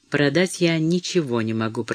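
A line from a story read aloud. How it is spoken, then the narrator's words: Whisper. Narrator (Russian): прошептала мама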